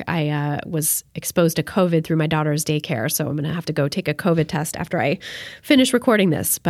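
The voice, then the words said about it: Sick-sounding voice. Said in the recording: “as you can probably tell from my voice, I'm a little bit sick, actually possibly a lot bit sick”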